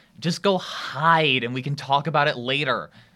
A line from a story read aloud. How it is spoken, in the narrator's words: Shermie hisses